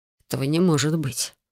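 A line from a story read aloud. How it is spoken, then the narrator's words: Muttered. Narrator (Russian): пробормотал он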